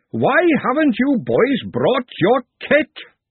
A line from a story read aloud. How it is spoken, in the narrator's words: he roared